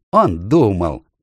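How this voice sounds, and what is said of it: Mocking imitation. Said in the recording (Russian): “передразнил”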